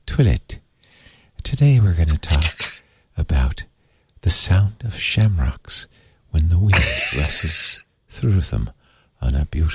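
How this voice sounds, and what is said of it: Soothing put-on Irish accent. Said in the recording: “if I did it in an Irish accent ... if I talked like this in a very soothing way”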